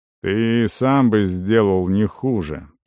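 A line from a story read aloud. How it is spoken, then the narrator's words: Shaman grumbling. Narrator (Russian): проворчал шаман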